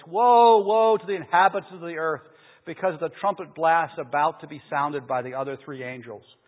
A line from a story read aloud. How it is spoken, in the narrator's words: I heard an angel that was flying in midair, calling out in a loud voice